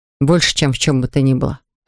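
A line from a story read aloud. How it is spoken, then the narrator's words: Plain. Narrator (Russian): ответил я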